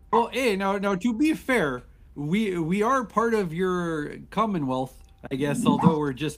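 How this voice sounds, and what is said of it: Canadian accent. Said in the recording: “was that a Canadian accent?”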